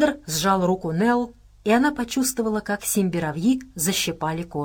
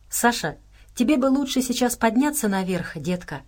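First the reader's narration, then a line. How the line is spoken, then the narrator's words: Plain. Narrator (Russian): сказала Нелл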